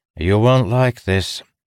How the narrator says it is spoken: Keitel said to her with a sigh

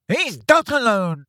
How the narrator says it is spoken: shouted a voice from above them

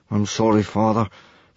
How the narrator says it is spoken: Hiccup mumbled miserably

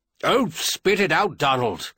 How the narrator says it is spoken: Clinton snapped

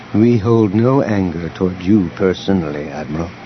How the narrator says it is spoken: Elegos said calmly

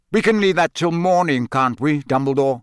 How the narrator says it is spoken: said Sirius harshly

